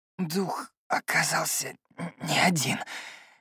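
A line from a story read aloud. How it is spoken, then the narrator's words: Hoarse rasp. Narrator (Russian): прохрипел Феликс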